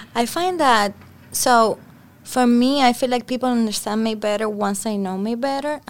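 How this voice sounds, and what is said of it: Cuban-accented English. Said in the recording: “they kind of get used to my accent ... speak like a Cuban ... my English accent gets even more and more Cuban”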